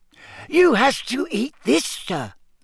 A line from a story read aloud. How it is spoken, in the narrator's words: squeaked the elf